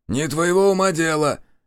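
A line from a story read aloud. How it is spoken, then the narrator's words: Snapping. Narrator (Russian): огрызнулся Митрич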